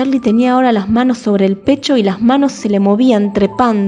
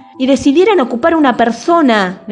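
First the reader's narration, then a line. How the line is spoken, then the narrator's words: Shout. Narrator (Spanish): gritó Charlie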